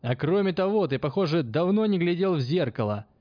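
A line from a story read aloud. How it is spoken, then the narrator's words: Mocking shout. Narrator (Russian): Издевательски крикнул он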